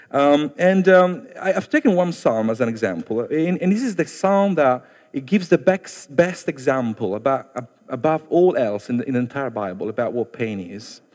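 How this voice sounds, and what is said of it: Italian accent. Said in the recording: “It's my Italian still coming through.”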